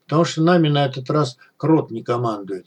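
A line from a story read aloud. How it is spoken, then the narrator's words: Calm. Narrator (Russian): сказал Эмиль спокойно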